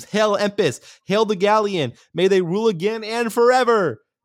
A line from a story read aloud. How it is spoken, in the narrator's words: Claudia screams